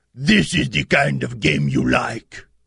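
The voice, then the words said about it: Imitates another person's voice. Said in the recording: “Was that a terrible Boppy accent? ... your impersonation of your dad ... Was that a terrible one?”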